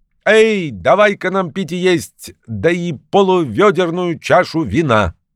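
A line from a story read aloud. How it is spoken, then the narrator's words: Old man shouting. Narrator (Russian): Старичок крикнул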